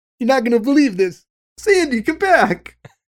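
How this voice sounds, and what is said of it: Imitates another person's voice. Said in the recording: “that's a great John Travolta impression that you're doing”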